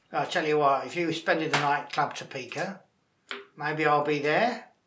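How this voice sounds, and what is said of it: Put-on Australian accent. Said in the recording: “Very good Aussie accent. ... I don't know why Wilfred Bramble turned into an Aussie.”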